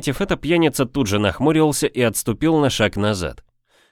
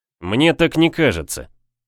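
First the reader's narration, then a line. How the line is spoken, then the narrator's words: Sharp. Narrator (Russian): резко произнес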